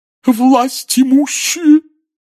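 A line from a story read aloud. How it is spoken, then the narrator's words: Hollow sobbing voice. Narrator (Russian): глухим рыдающим голосом возвестила Трелони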